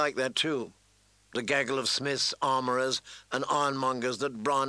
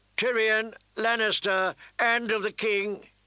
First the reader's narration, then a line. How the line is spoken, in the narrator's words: the steward cried out